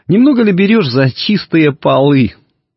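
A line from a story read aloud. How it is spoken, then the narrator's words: Laughing. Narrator (Russian): засмеялась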